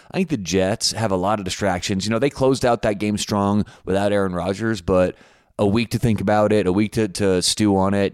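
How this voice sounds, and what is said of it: Voice worn from yelling. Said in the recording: “You can probably hear it in my voice, right? A lot of yelling last night”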